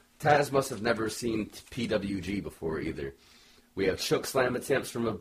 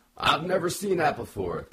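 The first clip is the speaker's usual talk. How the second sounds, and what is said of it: Taz impression. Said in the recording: “Don't know why that was my Taz accent.”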